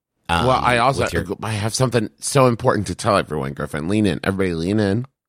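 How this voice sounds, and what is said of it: Slightly rough voice. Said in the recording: “My voice is a little rough, but not from sickness, just from laughing and screaming in joy.”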